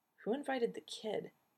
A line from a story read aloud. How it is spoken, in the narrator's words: Michael muttered darkly